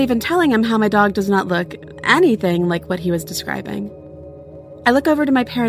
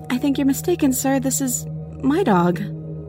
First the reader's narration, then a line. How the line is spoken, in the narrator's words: I just say nervously